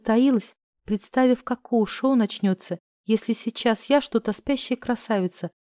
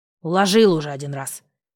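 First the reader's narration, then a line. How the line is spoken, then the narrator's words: Aunt snorting. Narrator (Russian): фыркнула тетушка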